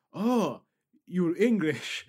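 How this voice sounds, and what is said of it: Put-on foreign accent. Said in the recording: “I'm going to stop doing the accent because that's very culturally inappropriate.”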